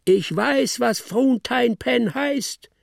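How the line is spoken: Shouting while falling. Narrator (German): schrie stürzend

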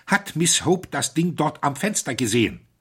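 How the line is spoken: Agitated voice. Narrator (German): sagte mit erregter Stimme

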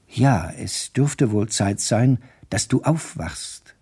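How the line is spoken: Plain. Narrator (German): sagte sie

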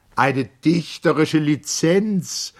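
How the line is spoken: Exclaimed. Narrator (German): rief Mager

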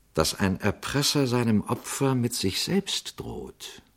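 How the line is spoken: Quiet question. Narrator (German): fragte Pater Braun leise

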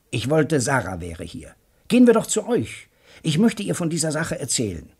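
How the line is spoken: Called out. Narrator (German): rief Joe Welling

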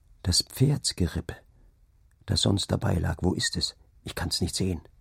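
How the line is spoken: Low murmur. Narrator (German): raunte er

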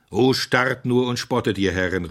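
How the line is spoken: Calling out. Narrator (German): rief Simeon

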